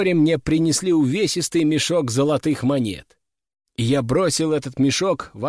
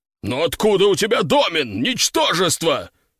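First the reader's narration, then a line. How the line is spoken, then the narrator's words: Roaring. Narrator (Russian): взревел он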